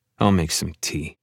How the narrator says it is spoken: mutter

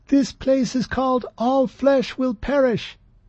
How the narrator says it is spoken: Trepp yelled above the noise

